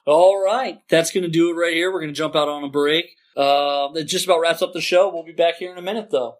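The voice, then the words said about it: Podcast host announcer voice. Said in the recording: “Hit us with that podcast voice.”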